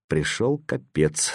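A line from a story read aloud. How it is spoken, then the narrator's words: Quiet. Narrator (Russian): сказал Саша негромко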